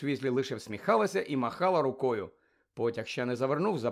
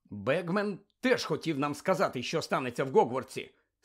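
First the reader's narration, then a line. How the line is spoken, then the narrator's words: Angry grumble. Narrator (Ukrainian): сердито буркнув він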